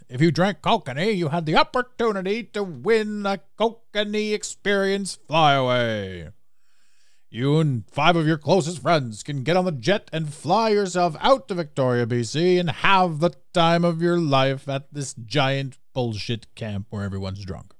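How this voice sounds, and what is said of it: Exaggerated radio announcer voice. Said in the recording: “That was my second best radio voice.”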